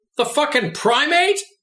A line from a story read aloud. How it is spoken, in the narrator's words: he shouted out gleefully